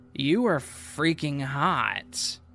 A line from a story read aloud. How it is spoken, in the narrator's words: She then slurred her words and said